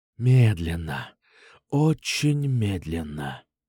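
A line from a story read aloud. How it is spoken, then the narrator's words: Whispered. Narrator (Russian): прошептал я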